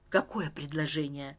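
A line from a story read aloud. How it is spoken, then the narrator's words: Whispered question. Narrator (Russian): шепотом спросил Леон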